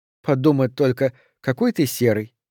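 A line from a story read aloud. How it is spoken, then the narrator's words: Laughing. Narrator (Russian): рассмеялась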